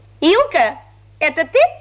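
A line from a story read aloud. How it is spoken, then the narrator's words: Cheerful voice. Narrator (Russian): весело сказала она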